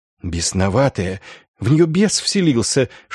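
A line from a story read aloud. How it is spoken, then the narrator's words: Nuns whispering together. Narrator (Russian): шептались монашки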